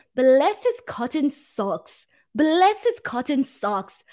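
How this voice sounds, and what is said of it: Poor put-on English accent. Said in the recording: “I can't do an English accent at all ... that's terrible ... my terrible English accent. Uh, really terrible”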